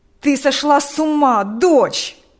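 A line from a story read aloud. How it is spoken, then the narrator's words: Father shouting. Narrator (Russian): кричал отец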